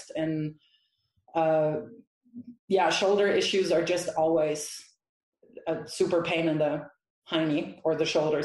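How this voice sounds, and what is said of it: Slight German accent. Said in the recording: “You have a very insignificant uh, German accent”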